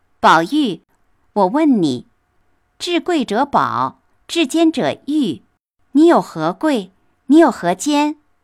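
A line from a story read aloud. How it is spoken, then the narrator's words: Laughing. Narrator (Chinese): 黛玉首先笑着说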